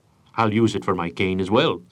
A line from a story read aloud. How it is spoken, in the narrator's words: said Hyde-White